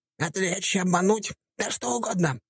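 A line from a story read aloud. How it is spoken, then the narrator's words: Rabbit's squeak. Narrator (Russian): пропищал кролик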